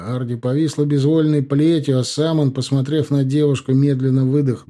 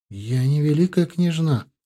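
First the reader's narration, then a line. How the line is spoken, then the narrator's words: Whisper. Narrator (Russian): прошептала Тесс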